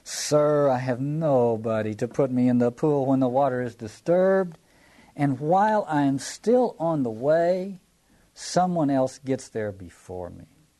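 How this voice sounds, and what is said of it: Little whining voice. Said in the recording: “I want to do this in a little whining voice”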